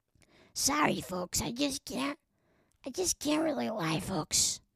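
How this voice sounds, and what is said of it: Imitates another person's voice. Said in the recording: “Is that her? What does she sound like again, Natasha Lyonne? ... That's not a New York accent.”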